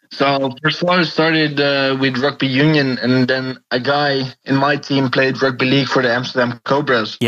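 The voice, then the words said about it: Foreign non-native English accent. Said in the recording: “obviously you were born over there, so we can all hear the accent.”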